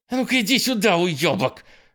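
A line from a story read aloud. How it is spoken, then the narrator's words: Yelling. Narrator (Russian): заорала Дана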